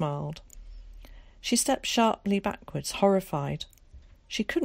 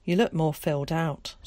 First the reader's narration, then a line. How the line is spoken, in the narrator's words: said his mother